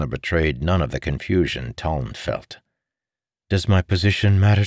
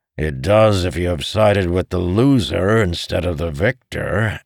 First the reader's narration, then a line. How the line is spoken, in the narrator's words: Eniezer said with a grunt